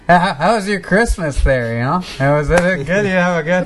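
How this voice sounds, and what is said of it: Norm Macdonald impression. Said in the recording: “good Norm impression ... Is that your white voice, just Norm McDonald?”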